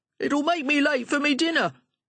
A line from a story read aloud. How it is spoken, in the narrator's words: shouted